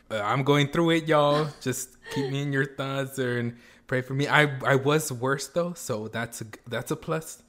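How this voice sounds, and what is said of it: Hoarse, slightly odd voice. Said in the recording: “I might sound a little bit weird, or like my voice may be a little bit hoarse”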